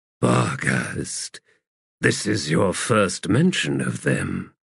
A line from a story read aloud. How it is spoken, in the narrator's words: Diligence sighed